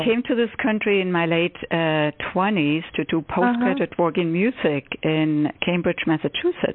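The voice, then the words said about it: Foreign accent. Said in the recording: “I detect the accent.”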